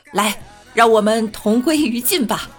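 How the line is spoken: Loud. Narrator (Chinese): 领导大声的说道

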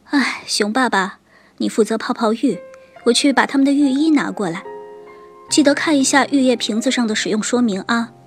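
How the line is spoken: Sighing mother. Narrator (Chinese): 熊妈妈叹了口气说

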